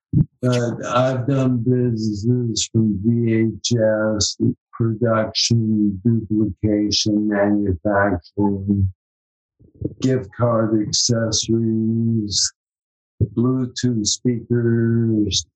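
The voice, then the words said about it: Slurred speech. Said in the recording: “my slurred speech ... I don't have that deep, resonating radio voice that I used to have”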